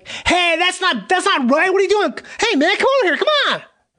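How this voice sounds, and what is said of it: Cartoon voice. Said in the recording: “cartoon voice”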